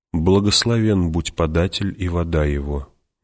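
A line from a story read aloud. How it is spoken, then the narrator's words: Quiet speech. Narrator (Russian): негромко говорил он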